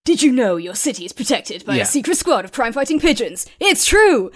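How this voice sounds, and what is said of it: Over-the-top movie trailer narrator voice. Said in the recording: “very extra over the top narration ... my imitation ... sort of like movie trailer sort of voice or like how you imagine a poster would speak”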